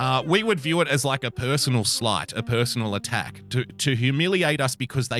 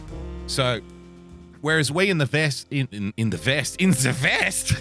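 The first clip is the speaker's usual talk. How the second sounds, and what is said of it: Slips into an older relative's accent. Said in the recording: “slipped into my dead grandmother's accent”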